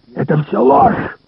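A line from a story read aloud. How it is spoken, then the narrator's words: Hoarse rasp. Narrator (Russian): прохрипел Ларри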